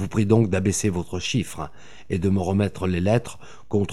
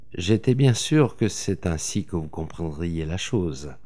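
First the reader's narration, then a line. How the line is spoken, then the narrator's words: Murmur. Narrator (French): murmura-t-il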